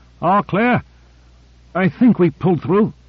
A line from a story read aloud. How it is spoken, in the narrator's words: gasped Owens